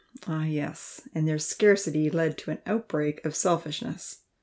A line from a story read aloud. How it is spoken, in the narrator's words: With a wry smile, whispered